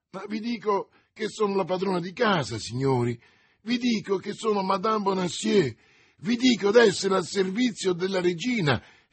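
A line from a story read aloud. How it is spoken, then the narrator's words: Wretched woman exclaiming. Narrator (Italian): esclamava la disgraziata donna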